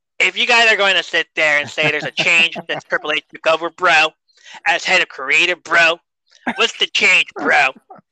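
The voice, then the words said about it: Imitates another person's voice. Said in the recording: “I got to do the accent, too”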